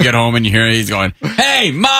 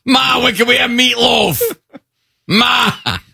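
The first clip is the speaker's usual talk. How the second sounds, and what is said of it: Put-on Boston accent. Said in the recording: “he has a Boston accent”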